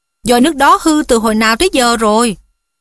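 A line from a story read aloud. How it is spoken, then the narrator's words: Cheerful ghostly voice. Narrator (Vietnamese): con ma khóc nhẹ Mytho hớn hở nói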